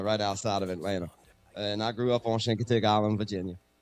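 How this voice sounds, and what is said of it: Blended Southern Cajun-Virginian accent. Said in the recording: “You seem like the most Cajun Virginian I think I've ever heard. ... so you have this accent gumbo that you hear right now. ... Gumbo accent.”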